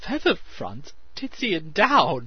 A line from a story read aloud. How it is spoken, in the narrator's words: she choked